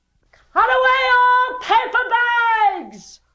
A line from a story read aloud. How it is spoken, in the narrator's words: roared the owner